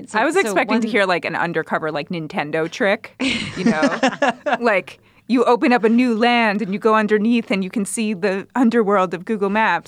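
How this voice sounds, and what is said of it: Mocking dim-witted voice. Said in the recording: “the moron voice that you used earlier to describe people driving into a cliff is the voice you used just now ... impression ... That's what a moron sounds like to”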